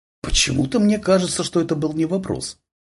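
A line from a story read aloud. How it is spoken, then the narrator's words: Nasal mutter. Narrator (Russian): пробормотала в нос Татьяна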